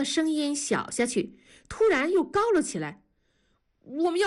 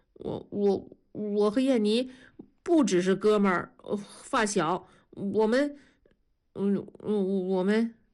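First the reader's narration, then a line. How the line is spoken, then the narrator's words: Stammering. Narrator (Chinese): 刘强结结巴巴地说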